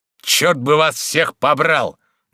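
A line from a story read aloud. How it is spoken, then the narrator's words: Loud bark. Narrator (Russian): гаркнул он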